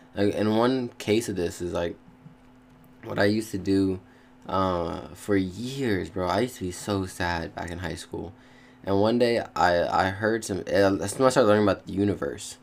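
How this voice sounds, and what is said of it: Stuttering, halting speech. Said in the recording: “I'm stuttering so much.”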